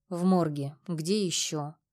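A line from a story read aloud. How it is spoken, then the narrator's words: Muffled answer. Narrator (Russian): Глухо ответил слон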